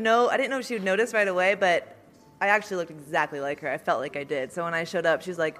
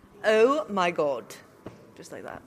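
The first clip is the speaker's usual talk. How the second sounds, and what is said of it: Unconvincing put-on British accent. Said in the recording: “that's your British accent, yeah? ... Need some work on that. ... No one in England talks like that”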